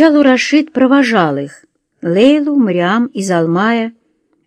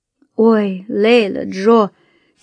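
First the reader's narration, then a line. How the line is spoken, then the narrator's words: Heavy sigh. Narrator (Russian): тяжко вздохнула Мариам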